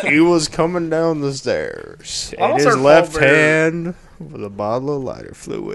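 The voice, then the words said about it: Bad deep-voiced Undertaker impression. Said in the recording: “Is that supposed to be Taker? That is terrible. ... Just talking in a deep voice.”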